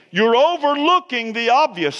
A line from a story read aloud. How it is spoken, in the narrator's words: So he screamed